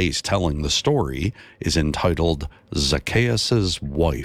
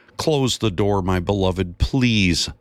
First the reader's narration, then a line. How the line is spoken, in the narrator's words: Zacchaeus' wife yelled in frustration